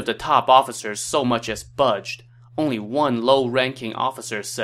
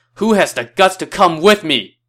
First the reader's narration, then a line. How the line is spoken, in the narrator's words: did his best Jerry Maguire impression and shouted